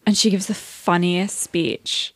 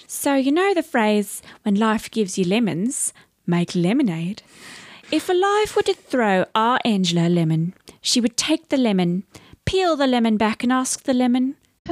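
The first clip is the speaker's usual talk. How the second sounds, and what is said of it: Put-on New Zealand accent. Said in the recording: “I have to do the Kiwi. I can't do the accent, but it's funnier in her voice ... You're getting ... Better.”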